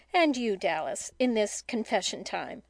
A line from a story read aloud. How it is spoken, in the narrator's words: said Mrs